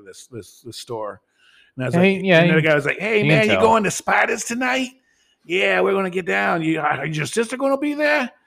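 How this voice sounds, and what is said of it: Imitated Queens New York accent. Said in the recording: “I did hear the Queens accent ... completely different accent than Brooklyn”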